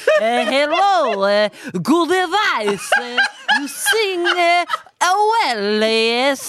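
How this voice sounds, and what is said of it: Terrible put-on Italian accent. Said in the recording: “I'm doing a terrible accent of him ... I'm doing like Italian”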